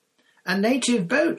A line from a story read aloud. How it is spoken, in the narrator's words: she shouted